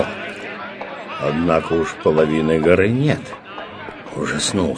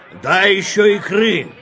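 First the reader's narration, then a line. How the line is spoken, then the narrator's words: Shout. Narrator (Russian): крикнул сосед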